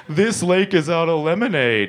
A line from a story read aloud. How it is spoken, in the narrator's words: he sobbed